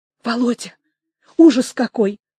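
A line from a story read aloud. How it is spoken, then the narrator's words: Fast whisper. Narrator (Russian): быстро заговорила Люся шепотом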